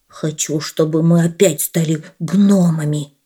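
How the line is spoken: Barely audible. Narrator (Russian): Еле слышно произнес путаник

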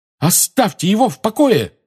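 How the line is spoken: Shout. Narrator (Russian): крикнула Лили

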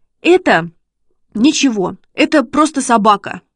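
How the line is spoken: Babbled timidly. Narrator (Russian): пролепетал Шишкин

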